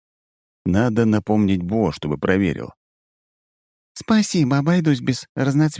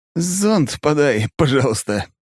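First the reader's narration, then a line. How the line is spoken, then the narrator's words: After laughing. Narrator (Russian): прошу, отсмеявшись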